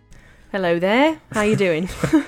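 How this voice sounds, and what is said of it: Put-on British accent. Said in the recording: “Starting off British.”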